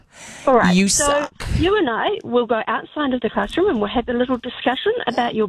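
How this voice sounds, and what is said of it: Stern teacher voice. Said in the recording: “You'd have to have a stern teacher voice.”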